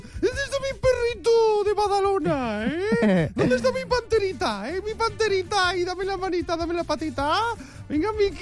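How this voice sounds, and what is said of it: Baby talk voice. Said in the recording (Spanish): “voz de bebé ... ¿Ese es el tono?”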